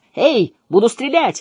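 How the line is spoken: Loud shout. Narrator (Russian): закричал мощный удар

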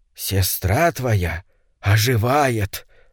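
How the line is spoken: Old man's loud whisper. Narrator (Russian): сказал старик громким шепотом

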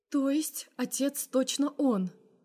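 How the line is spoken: Quiet questioning mother. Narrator (Russian): уточняет мама тихо

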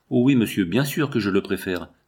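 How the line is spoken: Woman exclaiming. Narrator (French): s'exclama-t-elle

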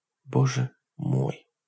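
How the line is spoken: Muttered. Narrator (Russian): пробормотала Дженнис

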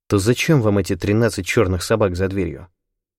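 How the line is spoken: Uncertain question. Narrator (Russian): спросил я у Гишипа неуверенно

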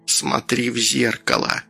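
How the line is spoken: Grandmother whispering. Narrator (Russian): прошептала бабуля

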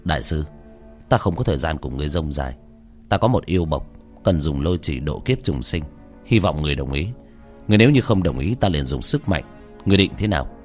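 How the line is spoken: Old monk, cold. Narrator (Vietnamese): Lão hòa thượng cầm đầu trừng mắt hướng tới lạnh lùng nói

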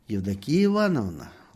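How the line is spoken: Tender call. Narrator (Russian): ласково позвал доктор

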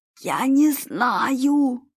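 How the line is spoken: Hoarse rasp. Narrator (Russian): прохрипел испанец

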